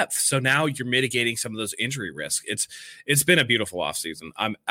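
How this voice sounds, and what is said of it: Smooth British accent. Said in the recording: “she loves your accent... those dulcet British tones, just they're so smooth”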